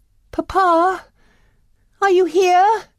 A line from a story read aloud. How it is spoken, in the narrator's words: cried Belle